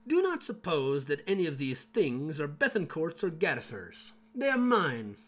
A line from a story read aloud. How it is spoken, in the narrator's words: Berthin is said to have exclaimed